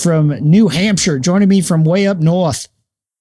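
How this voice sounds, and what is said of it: Mock New Hampshire accent. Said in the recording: “We don't all talk like that ... my New Hampshire and Boston and New York accents all get mixed up after about 5 seconds, and it's just ugly”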